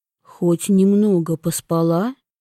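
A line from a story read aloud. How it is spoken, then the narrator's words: Sighing. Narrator (Russian): Вивьен вздохнула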